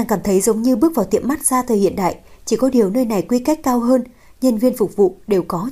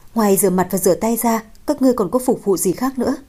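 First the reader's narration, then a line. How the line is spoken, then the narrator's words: Laughing question. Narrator (Vietnamese): Lâu Thất bật cười, hỏi thị nữ Châu Nhi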